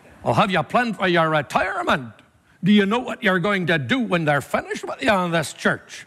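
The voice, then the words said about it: Put-on Northern Irish accent, lecturing. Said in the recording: “My accent is bad enough. I'm giving you Northern Irish now ... in Northern Ireland, when they're talking to you, you feel like you're getting a lecture”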